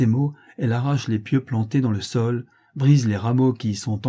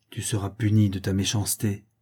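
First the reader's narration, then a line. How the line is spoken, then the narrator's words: Murmured by hedge. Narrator (French): murmure la haie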